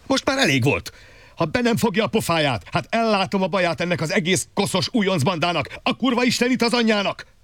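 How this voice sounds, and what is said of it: Furious shouting, menacingly controlled. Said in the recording (Hungarian): “Ordítani kezdett egészen más hangon ... még dühöngésében is meg tudta őrizni valahogyan a vészjósló nyugalmát”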